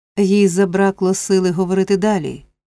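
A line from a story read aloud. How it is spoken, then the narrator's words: Plain. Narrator (Ukrainian): сказала місіс Бамбл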